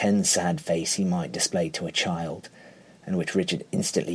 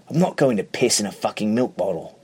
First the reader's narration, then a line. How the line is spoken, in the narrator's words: Richard snaps